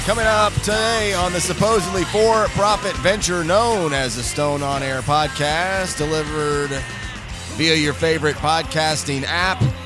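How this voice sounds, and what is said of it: Congested, slightly off voice. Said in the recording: “My sinuses have been destroying me, so my voice is a little off”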